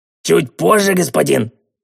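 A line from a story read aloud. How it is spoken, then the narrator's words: Indignant howl. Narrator (Russian): с негодованием взвыл мастер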